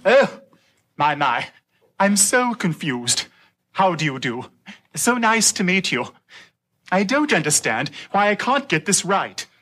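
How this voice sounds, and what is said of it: Poor put-on British accent. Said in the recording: “David's terrible British accent, but that sailor's British accent really wasn't that much better”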